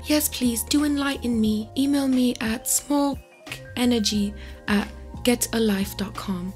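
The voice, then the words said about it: Poor impression, sounds like Dobby. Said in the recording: “my very poor impression of Greta ... horrible that horrible imper- impersonation of you i kind of sound like dobby”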